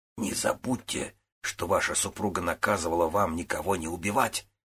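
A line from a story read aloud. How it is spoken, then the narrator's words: Henchman's close whisper. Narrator (Russian): шепнули главарю, стоявший рядом с ним подручный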